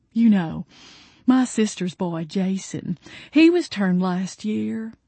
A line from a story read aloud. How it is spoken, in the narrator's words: she sighed